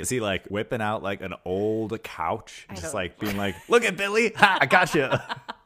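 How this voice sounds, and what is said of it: British accent imitating another person. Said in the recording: “it's like Hugh Grant's here. That accent's impeccable.”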